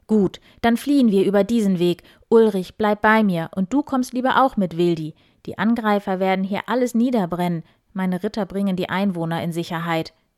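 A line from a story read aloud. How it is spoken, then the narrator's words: Firm call. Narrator (German): rief Eberhard entschieden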